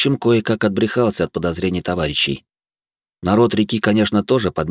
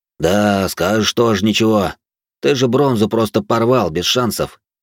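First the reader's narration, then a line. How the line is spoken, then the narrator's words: Plain. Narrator (Russian): ответил командир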